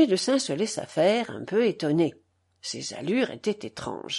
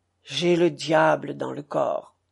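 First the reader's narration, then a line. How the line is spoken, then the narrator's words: Sepulchral tone. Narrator (French): Puis il lui dit d'un ton sépulcral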